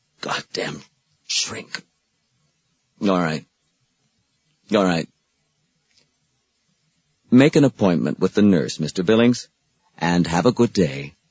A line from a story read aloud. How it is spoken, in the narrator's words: After a long silence, Billings muttered